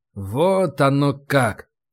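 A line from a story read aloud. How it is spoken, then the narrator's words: Drawn-out. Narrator (Russian): протянул я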